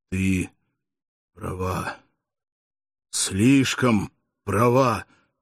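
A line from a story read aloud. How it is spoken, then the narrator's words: Barely audible whisper. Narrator (Russian): прошептал едва слышно Акномао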